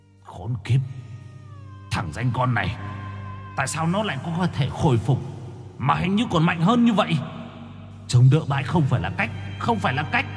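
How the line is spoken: Harsh growl. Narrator (Vietnamese): Bóng đen đầu trâu mặt ngựa gằn giọng

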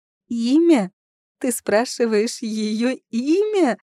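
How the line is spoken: Giggling, growing louder. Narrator (Russian): Сильянель хихикала все громче

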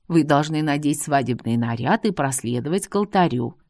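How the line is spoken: Calm reply. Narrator (Russian): спокойно ответила Эл

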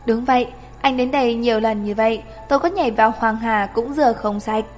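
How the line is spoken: Smiling. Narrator (Vietnamese): Chàng Loan Thần mỉm cười

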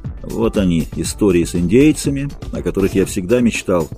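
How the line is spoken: Muttering through teeth. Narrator (Russian): бормотал сквозь зубы

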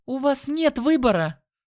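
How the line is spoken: Sharp shout. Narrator (Russian): Она прикрикнула

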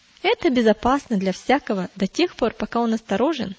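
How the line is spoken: Quick reply. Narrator (Russian): Он быстро ответил

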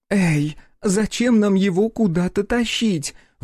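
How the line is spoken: Squeal. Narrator (Russian): взвизгнула Аша

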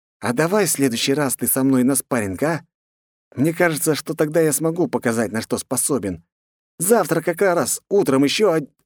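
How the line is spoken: Hiss. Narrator (Russian): прошипел Андросов

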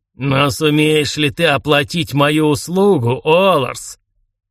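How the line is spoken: Loud hiss over voices. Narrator (Russian): Будто не он, а сам гордый Ленорм зашипел, перекрывая голоса утопленников

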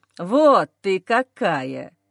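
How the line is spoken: Sarcastic reply. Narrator (Russian): язвительно отвечает мужчина

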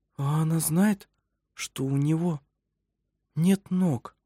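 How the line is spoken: Quiet question. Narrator (Russian): тихо спросила Анна Грета

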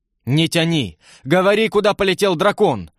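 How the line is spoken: Impatient shout, older servant. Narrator (Russian): в нетерпении прокричал старший слуга

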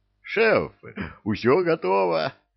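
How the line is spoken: Joyful, seasoned voice. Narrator (Russian): радостно сообщил Люциферу самый толстый банщик, голосом бывалого

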